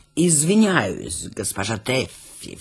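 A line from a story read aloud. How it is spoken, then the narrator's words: Ingratiating question. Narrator (Russian): вкрадчиво спросил он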